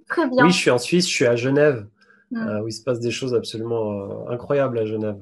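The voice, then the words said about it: Swiss French accent. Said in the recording (French): “on entend qu'il y a un une petite intonation, un accent, c'est que tu es, tu es suisse ... j'ai peut-être regagné un peu l'accent suisse”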